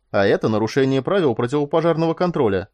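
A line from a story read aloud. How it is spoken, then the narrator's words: Cheerful man. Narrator (Russian): радостно сказал мускулистый сотрудник службы безопасности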